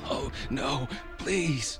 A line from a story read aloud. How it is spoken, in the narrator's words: I wheezed